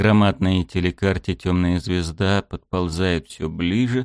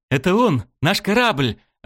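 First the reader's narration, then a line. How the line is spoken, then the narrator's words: Joyful shout. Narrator (Russian): радостно закричала Далнара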